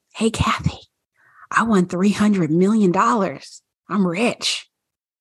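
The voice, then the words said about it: Whispering. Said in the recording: “Did you whisper my name? ... Yes, I did. Because that's how I would say it. I would whisper it.”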